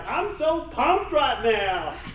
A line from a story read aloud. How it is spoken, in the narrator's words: he would shout